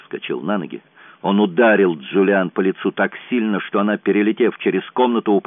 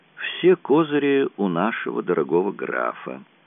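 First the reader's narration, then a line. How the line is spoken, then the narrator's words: Calm. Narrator (Russian): спокойно ответил Герлан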